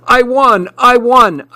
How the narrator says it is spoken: shouted

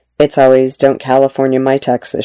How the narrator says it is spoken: she said

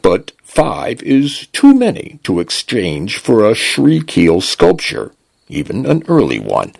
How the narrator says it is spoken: the translation device intoned

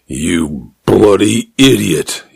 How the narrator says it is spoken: he said, his voice flat with anger

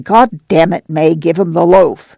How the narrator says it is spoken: Al said snarlingly

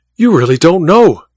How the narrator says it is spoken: cried Godal, his eyes blazing

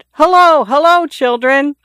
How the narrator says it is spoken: He shouted

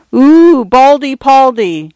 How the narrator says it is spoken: some idiot girl had exclaimed

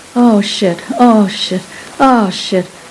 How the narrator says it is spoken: I could hear him moaning

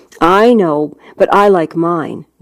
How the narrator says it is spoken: Nova said, a mite sharply

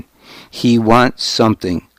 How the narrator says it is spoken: said again

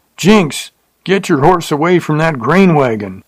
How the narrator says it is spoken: someone hollered

